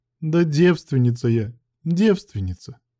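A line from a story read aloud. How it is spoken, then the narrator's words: Tired hoarse declaration. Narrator (Russian): Усталым хриплым голосом заявила Галия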